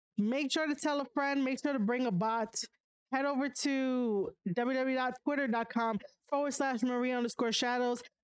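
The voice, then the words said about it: Strained, fading voice. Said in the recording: “I'm losing my voice. I'm so sorry.”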